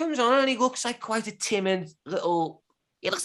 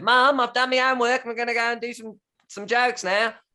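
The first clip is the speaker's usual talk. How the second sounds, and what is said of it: Imitates another person's voice. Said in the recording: “a great Sam Campbell impression”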